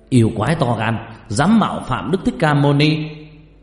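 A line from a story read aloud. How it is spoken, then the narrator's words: Warrior's fierce shout. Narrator (Vietnamese): một thiên tướng hét lên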